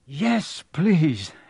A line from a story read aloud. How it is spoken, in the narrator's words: Harry panted